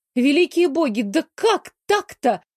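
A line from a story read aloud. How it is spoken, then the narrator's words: Wailing howl. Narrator (Russian): взвыла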